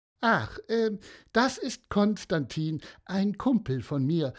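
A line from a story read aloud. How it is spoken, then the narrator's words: Plain. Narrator (German): sagte Elfi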